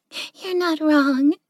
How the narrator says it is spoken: Yukiko giggled

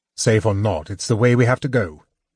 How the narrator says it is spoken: Tanis snapped

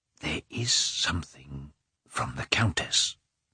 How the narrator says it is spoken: said the porter, whispering

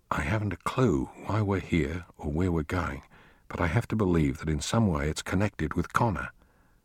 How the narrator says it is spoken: Stuart whispered to Maggie and Tara

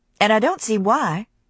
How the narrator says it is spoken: she said irritably

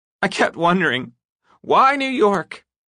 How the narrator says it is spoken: Estelle said, her voice shaking

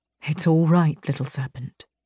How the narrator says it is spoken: he whispered

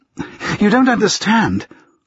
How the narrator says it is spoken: she blurted out, because she had no idea what she should say

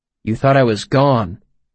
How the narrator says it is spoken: I corrected gently

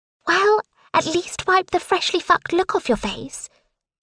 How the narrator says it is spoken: gasp, allowing the smile to break free

